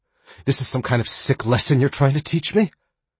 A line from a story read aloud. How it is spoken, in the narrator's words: She asked breathlessly